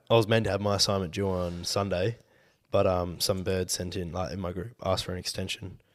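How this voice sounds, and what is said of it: Deep, sick-sounding voice. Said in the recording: “I'm fucking a little bit like under the weather ... deep voice for the podcast ... probably got a good podcast voice”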